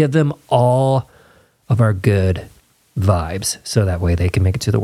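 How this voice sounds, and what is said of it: Usual voice. Nothing is said of it.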